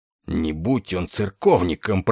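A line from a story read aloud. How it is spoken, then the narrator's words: Grumbling. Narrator (Russian): проворчал генерал Дридл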